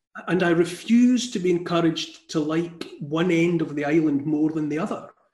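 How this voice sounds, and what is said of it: Scottish accent. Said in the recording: “born in Scotland ... I'm proud of my accent.”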